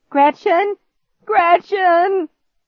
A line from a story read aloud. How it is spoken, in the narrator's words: he shouted my name over and over again